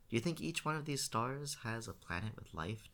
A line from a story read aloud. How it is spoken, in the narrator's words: Tiff asks